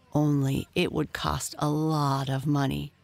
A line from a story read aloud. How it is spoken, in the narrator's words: groaned the minister's oldest son